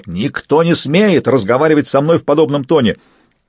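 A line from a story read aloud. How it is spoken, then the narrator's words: Yelled, losing composure. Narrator (Russian): Показное спокойствие оставило Сапилоте, и он заорал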